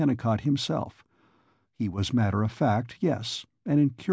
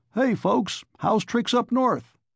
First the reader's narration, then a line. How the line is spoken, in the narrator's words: Jackson Elder cried